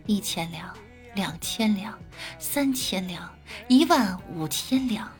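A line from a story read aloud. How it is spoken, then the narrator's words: Muttering. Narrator (Chinese): 杀手 喃喃道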